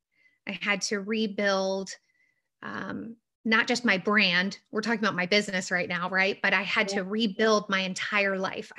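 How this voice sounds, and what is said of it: Slightly raspy voice. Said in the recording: “You can hear I'm a little raspy.”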